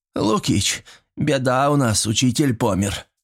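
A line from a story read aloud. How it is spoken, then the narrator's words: Tragic declaration. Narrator (Russian): трагическим голосом заявил Митрич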